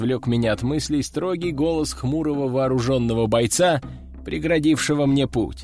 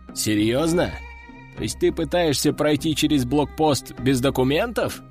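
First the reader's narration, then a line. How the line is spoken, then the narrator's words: Short guffaw. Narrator (Russian): хохотнул боец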